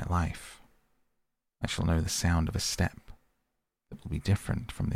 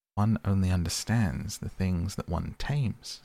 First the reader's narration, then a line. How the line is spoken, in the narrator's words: said the fox